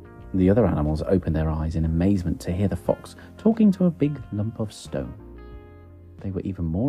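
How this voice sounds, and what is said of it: Usual voice. Nothing is said of it.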